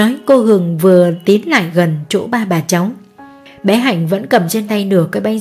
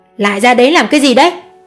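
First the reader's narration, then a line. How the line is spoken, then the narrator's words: Shrill voice. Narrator (Vietnamese): giọng cô Hường vang lên the thé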